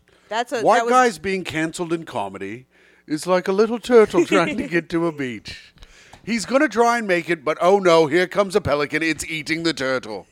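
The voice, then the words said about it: John Oliver impression. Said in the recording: “Your John Oliver impression is perfect.”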